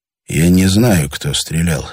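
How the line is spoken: Quiet. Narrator (Russian): сказал тихо Андрей Витасу

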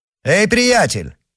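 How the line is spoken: Shout. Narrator (Russian): крикнул герцог

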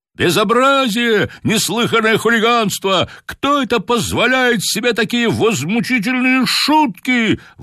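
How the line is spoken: Excited crowd shouting. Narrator (Russian): возбужденно кричали на трибунах

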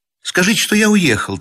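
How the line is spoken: Hurried. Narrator (Russian): торопливо прибавил он

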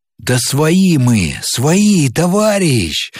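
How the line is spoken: Joyful hurried shout. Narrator (Russian): радостно и торопливо закричал тот, что шел на него

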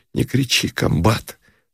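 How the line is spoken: Sobbing whisper. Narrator (Russian): всхлипывающим шепотом сказал он

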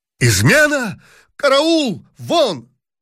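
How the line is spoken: Emperor's alarmed shout. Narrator (Russian): закричал император

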